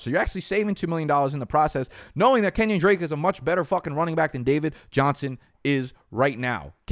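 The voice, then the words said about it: Yelling, loud animated rant. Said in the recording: “I'm yelling ... I'm sorry for yelling at you guys.”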